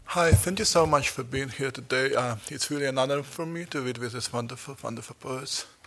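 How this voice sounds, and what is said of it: Very heavy Russian accent. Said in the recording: “I speak with a very heavy Russian accent.”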